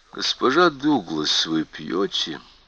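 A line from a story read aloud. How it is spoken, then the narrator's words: Soft question. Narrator (Russian): мягко спросил врач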